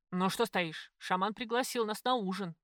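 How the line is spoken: Bellowed. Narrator (Russian): гаркнул Егоров

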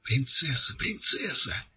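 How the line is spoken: Whispering crowd. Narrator (Russian): зашептали кругом

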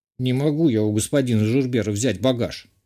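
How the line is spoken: Gruff mutter. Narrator (Russian): буркнул Зурба

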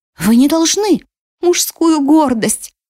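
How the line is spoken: Sobbing. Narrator (Russian): прорыдала Зелейна

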